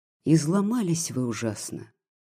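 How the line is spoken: Gentle remark. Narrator (Russian): мягко заметил

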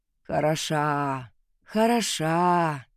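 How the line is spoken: Sighing. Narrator (Russian): вздохнул он

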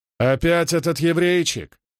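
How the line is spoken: Furious bark. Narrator (Russian): рявкнул Фокт, багровея от гнева

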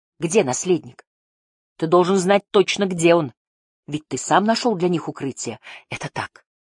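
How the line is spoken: Quiet. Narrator (Russian): тихо сказал отец

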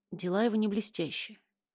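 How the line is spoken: Whisper. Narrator (Russian): прошептала

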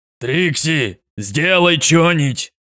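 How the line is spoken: Yelling. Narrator (Russian): заорал Фаци

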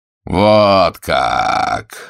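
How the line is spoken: Sinister drawl. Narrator (Russian): зловеще протянул Назаров

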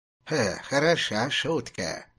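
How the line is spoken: Creaky voice. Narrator (Russian): проскрипел он

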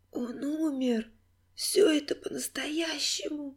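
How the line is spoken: Hoarse whisper. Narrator (Russian): прошептала Алиса хрипло

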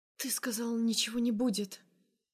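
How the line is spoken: Trembling whisper. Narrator (Russian): шепчу дрожащим голосом

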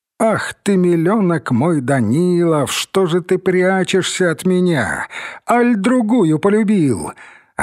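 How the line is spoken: Laughing with reproach. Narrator (Russian): Она смеялась, укоризну

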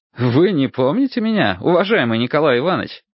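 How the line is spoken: Cheerful. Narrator (Russian): продолжал я весело

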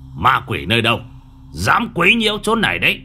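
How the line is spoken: Shouting. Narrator (Vietnamese): Nhị Toét quát lên

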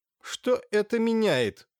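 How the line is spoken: Irritated gentleman's question. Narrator (Russian): раздраженно спросил вальяжный господин

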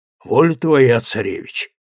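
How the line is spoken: Old man's hopeless sigh. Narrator (Russian): безнадежно вздохнул старик

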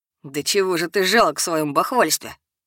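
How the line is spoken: Scornful snort. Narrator (Russian): фыркнул кто-то из проходящих мимо меня однокурсников

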